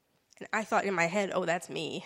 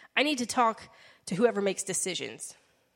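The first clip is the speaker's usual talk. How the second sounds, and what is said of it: Stern, severe voice. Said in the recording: “in a really stern voice”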